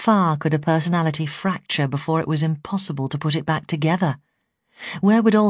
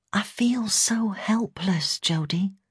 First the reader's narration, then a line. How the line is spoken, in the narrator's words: I whispered